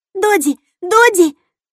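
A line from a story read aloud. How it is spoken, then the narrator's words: Distant squeak. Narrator (Russian): пропищала Кассандра откуда-то из-за деревьев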